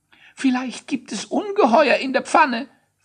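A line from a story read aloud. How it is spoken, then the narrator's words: Fearful question. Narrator (German): fragte Quietsch ängstlich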